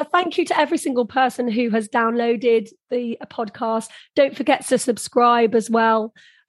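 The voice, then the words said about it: Hoarse, strained voice. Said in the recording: “This is why I've lost my voice, obviously.”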